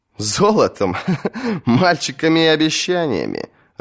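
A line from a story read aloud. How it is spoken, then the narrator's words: Loud laughter. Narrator (Russian): расхохотался Петир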